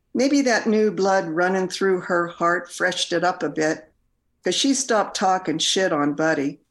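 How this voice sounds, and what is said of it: Regional rural American accent. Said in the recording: “I love that that accent”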